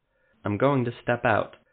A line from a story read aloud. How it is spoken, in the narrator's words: Guess of Lyria said calmly